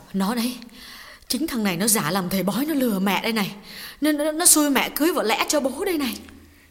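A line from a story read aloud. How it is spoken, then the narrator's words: Old woman's trembling whisper. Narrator (Vietnamese): Bà run run nói nhỏ với con gái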